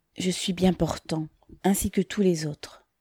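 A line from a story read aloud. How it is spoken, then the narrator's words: Low voice. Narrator (French): dit Pavel à mi-voix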